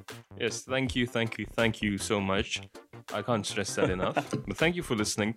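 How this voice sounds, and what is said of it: American accent. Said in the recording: “American accent”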